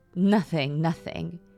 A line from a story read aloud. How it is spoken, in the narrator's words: managed between chuckles